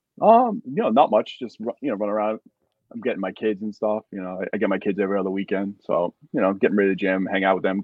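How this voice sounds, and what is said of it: New York accent. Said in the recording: “I can hear the New York accent when you talk”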